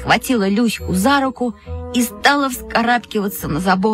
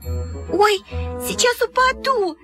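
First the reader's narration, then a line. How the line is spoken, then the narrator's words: Squeaky squeal. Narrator (Russian): запищала Люська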